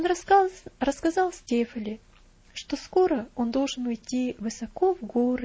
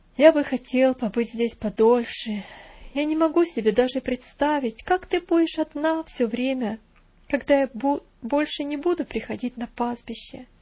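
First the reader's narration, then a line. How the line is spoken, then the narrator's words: Sad voice. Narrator (Russian): печально проговорил Винзи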